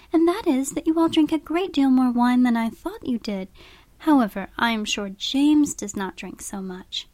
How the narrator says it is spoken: said Catherine warmly

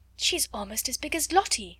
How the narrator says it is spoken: someone gasped

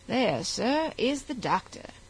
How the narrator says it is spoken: said the attendant of Henry, very coolly

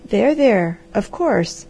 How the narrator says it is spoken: said the Harvester soothingly

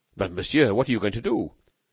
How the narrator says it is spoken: Devanne exclaimed anxiously

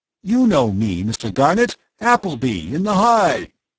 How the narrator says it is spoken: voice lost in the general roar

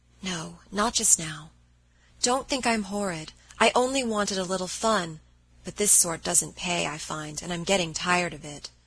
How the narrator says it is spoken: her answer in a whisper

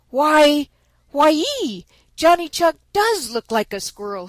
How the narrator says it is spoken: he exclaimed

